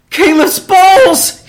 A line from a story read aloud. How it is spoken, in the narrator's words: he cried in dismay